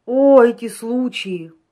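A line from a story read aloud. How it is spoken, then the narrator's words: Careless drawl, prosecutor. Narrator (Russian): небрежно протянул прокурор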